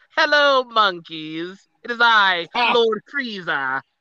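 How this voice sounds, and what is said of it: Imitates cartoon villain Frieza's voice. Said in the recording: “my Lord Frieza impression from Dragon Ball Z”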